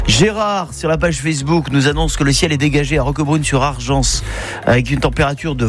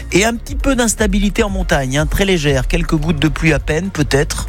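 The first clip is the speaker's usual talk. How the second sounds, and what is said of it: Put-on northern French accent. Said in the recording (French): “Vous avez pris un accent du Nord là, non? ... dès qu'il y a de la pluie, je prends l'accent du Nord”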